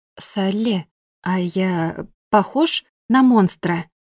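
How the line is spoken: Soft but serious question. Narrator (Russian): Поинтересовались неожиданно мягко, но вполне серьезно

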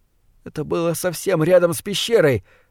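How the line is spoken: Trembling voice. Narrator (Russian): дрожащим голосом сообщил

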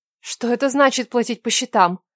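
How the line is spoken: Frightened question. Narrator (Russian): испуганно спросила

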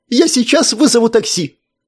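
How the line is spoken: Shouted. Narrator (Russian): крикнул адвокат

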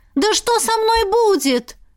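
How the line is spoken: Screamed. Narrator (Russian): завопила я

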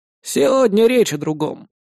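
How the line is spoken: Grumbling. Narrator (Russian): проворчал Владимир Григорьевич

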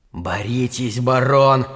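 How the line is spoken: Hiss in the ear. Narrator (Russian): зашипели в ухо

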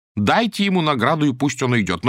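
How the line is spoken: Amused. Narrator (Russian): засмеялся и сказал

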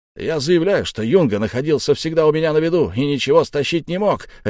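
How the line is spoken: Furious bark. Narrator (Russian): рявкнул взбешенный Яки

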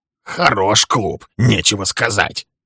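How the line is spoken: Grumbling. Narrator (Russian): ворчал он

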